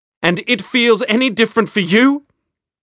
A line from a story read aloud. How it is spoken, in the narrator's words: she cried